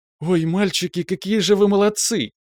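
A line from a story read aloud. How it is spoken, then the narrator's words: Exclaiming. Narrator (Russian): Воскликнула она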